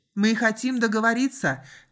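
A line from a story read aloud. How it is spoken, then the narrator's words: Shouted. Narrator (Russian): крикнул Райли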